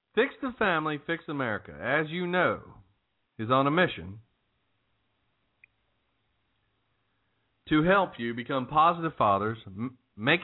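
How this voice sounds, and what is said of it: American southern twang. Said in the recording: “Did you hear him say Chianti? ... Sometimes there's a southern twang.”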